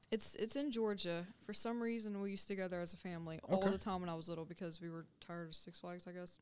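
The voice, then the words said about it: Southern US accent. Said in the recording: “It's the southern accent. ... It's that Rock Mart coming out. ... Rock Mart, Georgia coming out.”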